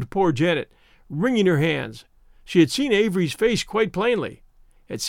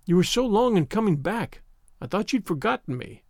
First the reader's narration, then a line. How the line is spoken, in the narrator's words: cried Avery